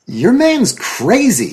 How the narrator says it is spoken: he snapped

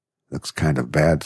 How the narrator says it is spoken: said McNally anxiously

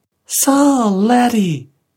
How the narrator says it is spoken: piped the little girl's voice

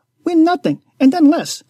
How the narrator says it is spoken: I snorted

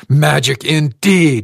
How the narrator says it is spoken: she screamed

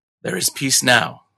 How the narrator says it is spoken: murmured

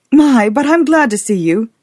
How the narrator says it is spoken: she exclaimed to Edward with a gasp of relief

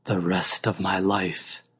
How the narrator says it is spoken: he repeated softly

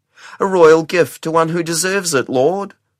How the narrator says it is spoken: whined the eunuch

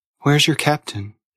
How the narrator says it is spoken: she asked

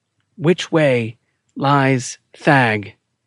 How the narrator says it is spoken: he asked

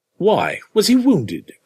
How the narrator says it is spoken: exclaimed Jennings

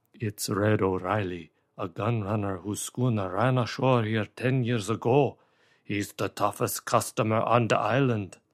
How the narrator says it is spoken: Von Hausmann muttered in David's ear

